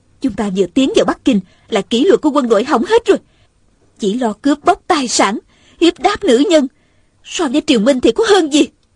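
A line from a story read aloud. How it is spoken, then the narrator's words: Angry. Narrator (Vietnamese): Hồng Nương Tử giận dữ nói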